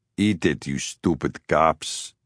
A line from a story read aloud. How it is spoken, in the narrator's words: he mumbled